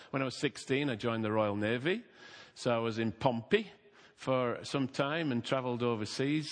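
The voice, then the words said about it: Yorkshire English accent. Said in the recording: “I'm a Yorkshireman by birth, so if you're expecting a Welsh accent, sorry”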